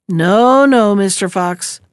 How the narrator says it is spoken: replied Blackie

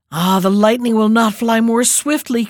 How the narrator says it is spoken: cried he

